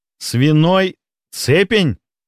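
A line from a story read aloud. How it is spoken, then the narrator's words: Strained forced words. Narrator (Russian): Наконец выдавил из себя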